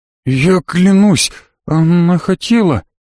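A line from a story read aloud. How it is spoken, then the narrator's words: Trembling voice. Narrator (Russian): дрожащим голосом сказал Славик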